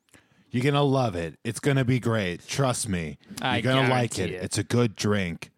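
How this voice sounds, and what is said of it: Imitates another person's voice. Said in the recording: “my Jonald Drum impression”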